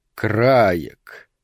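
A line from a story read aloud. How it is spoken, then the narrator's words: Thoughtful vampire. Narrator (Russian): повторил задумчиво вампир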